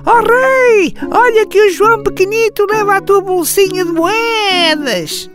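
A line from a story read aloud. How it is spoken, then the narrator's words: Parrot squawking. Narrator (Portuguese): O papagaio do rei turco começou a gritar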